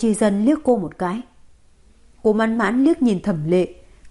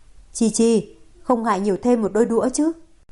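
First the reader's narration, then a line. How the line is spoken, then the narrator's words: Smiling. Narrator (Vietnamese): Cố Chi Dân mỉm cười nói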